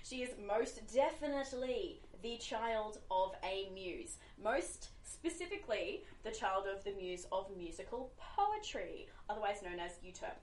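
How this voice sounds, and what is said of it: Australian accent. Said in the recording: “I have an accent. ... We are Aussies. ... Australians.”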